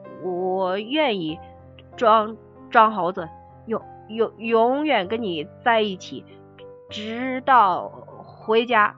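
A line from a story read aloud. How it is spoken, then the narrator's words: Stammering. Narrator (Chinese): 小孙结结巴巴的说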